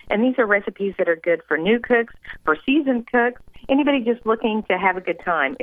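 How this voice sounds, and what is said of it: Slight Southern American accent. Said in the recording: “Do I detect a Southern accent? ... It's a slight Southern.”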